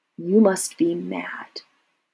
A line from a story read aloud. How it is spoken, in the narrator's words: said very softly